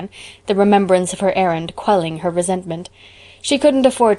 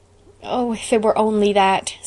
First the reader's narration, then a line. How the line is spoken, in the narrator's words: sighed Anne